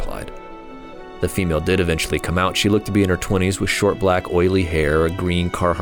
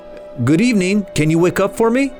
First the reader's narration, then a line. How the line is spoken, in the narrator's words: I shouted this time